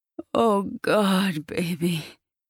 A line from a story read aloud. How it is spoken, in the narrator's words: he groans out